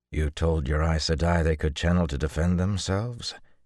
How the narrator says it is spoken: said calmly

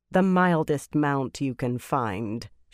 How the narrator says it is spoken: said in a flat voice

